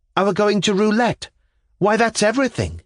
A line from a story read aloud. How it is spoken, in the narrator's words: I cried